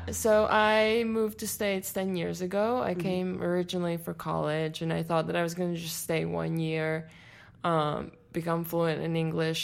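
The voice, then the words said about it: Latvian accent in English. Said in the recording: “I'm from Latvia. And my first language is Latvian, so please excuse my accent”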